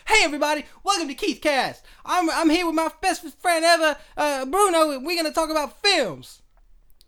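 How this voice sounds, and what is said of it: Put-on American accent. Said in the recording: “put on that silly American voice ... every time I do an intro for the radio show, it comes out like that”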